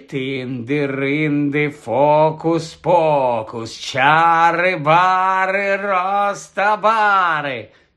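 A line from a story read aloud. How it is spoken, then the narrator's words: Frightening voice. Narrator (Ukrainian): Страшним голосом почав вимовляти Гаррі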